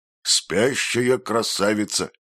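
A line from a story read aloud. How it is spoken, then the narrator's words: Snorting, mocking. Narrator (Russian): хмыкнул автоматчик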